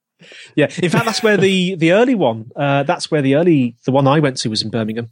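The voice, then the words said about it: Birmingham (Brummie) accent. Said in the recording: “you can hear my Brummie accent. That does come out from time to time”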